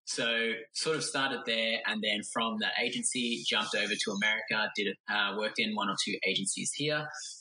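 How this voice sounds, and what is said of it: Australian accent. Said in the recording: “back in Australia, hence the accent.”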